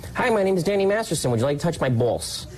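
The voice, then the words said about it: Exaggerated Long Island accent imitation. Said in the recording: “You have no Long Island accent that I can discern ... he always teases me and he says ... doing an imitation of me. Because certain words you just can't get away with”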